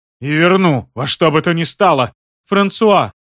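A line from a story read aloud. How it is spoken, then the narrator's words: Shout. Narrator (Russian): крикнула графиня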